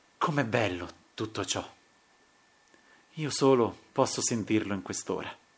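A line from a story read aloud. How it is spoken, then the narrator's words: Anguished sighing murmur. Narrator (Italian): Non ebbe più a lungo la forza di dissimulare l'angoscia mormorò con un sospiro a stento represso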